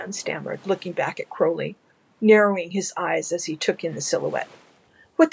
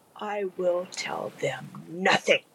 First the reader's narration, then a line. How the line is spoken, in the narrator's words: the demon hissed back